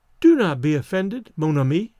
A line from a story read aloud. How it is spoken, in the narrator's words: said kindly